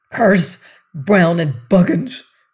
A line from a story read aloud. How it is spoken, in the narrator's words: he cried